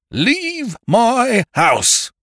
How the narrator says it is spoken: thundered

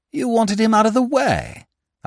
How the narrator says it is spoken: I exclaimed

